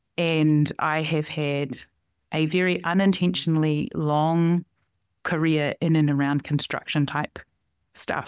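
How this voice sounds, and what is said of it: New Zealand accent. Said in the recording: “I'm from New Zealand. That's where this accent comes from.”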